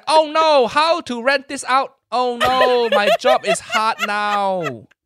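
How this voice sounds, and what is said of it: Put-on different Asian accent. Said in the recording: “you do an accent. You do an Asian accent, even though you already have an Asian accent ... A different Asian accent.”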